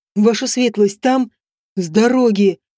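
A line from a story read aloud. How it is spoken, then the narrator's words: Savage growl. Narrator (Russian): прорычал Отон, словно бешеный зверь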